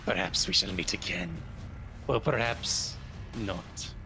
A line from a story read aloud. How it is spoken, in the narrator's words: another vampire hissing, murmuring